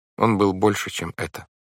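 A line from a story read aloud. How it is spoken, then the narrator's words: Sad. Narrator (Russian): грустно сказала Вайолет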